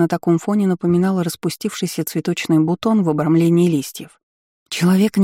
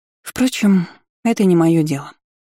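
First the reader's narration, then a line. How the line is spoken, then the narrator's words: Spoken, then tired sigh. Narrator (Russian): проговорила Агна и устало вздохнула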